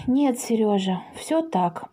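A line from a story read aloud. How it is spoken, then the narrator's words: Mother sighing. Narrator (Russian): вздохнула мама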